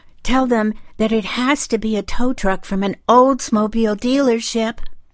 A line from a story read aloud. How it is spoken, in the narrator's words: screamed in the wind